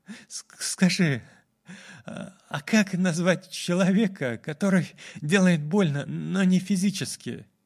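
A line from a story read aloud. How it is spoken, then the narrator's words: Sighing, trembling question. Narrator (Russian): Ланиакея вздохнула и спросила с дрожью в голосе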